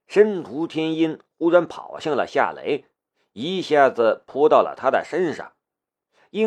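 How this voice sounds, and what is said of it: Usual voice. Nothing is said of it.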